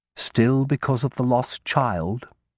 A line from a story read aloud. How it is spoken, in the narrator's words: I added more gently